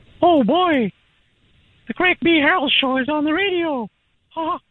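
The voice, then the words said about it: Mickey Mouse cartoon voice impression. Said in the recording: “An impersonation... Mickey Mouse”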